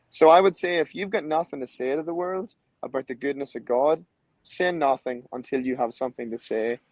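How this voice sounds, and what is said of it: Irish accent. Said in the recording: “I don't know if it's the accent... he's from Ireland.”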